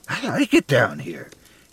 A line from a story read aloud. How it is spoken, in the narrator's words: he said excitedly